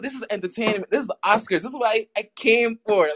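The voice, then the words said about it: Caribbean accent, sounds almost Bahamian. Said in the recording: “Where your accent from? ... very mixed Caribbean background ... Guyana, Barbados, and I was raised in Brooklyn ... when I heard your accent, I was like, it almost sounded Bahamian”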